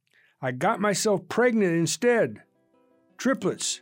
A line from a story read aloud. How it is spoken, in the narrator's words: yelled